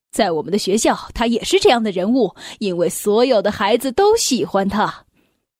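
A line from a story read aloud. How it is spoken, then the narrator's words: Smiling reply. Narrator (Chinese): 校长微笑的回答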